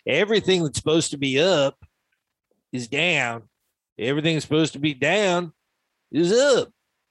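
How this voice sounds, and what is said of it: Imitates another person's voice. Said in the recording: “That's a good impersonation, buddy. You sound just like him. ... your Al Gore voice”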